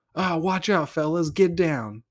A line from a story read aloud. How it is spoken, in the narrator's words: yelled my dad